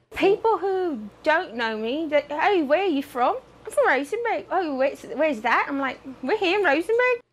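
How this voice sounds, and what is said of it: British-sounding accent. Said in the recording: “you may assume she's from London ... she started speaking with a British accent”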